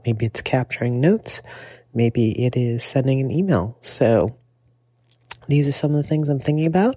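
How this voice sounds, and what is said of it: Congested voice from a cold. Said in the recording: “I have a cold today”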